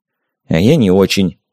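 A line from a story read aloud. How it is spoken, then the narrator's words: Blind man grumbling. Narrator (Russian): буркнул слепой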